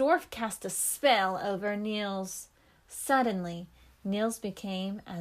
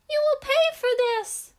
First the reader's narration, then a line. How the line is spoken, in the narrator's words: shouted the dwarf